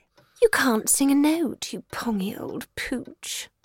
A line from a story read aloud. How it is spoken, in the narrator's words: she purred